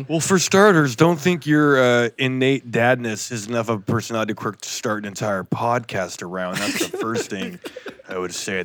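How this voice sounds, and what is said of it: Gruff deep dad voice. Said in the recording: “That was my Tyler impersonation ... My dad voice is really gruff ... It's my Liam Neeson voice ... your gruff impersonation of me”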